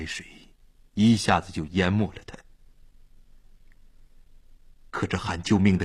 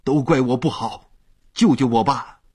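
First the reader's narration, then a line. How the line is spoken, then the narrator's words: Struggling, desperate shout. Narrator (Chinese): 他在海里挣扎着喊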